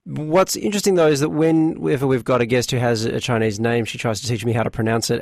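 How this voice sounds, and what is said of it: Australian accent. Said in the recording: “is there something in the Australian accent ... I love your accent.”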